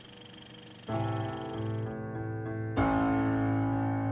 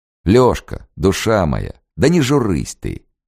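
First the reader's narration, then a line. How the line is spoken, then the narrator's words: Light, cheerful, exaggerated accent. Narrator (Russian): говорил он легко, весело форсируя малороссийский выговор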